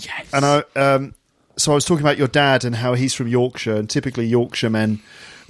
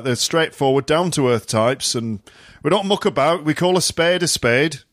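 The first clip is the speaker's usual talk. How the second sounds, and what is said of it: Put-on Yorkshire accent. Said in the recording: “Is that a Yorkshire accent? ... sounds like my granddad.”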